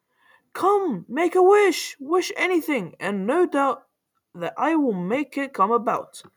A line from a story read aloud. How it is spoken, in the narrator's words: she cried